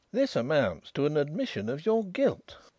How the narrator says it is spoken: exclaimed Mr

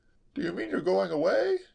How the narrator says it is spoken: he quavered

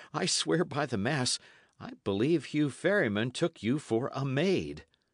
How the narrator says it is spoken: he went on with a sudden chuckle

